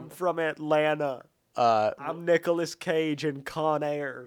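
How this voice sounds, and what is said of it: Poor Nicolas Cage Con Air accent. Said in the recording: “You're not great at the accent. ... Con Air is one of the worst accents just ever. ... Nicolas Cage's accent in Con Air is the worst accent”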